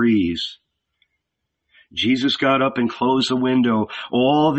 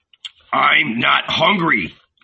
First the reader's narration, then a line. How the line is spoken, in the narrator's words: growled